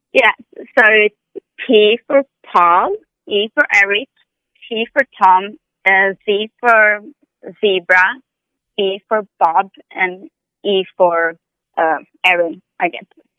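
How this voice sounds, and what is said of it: Speaks English with an accent. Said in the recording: “because of my accent, people miss here”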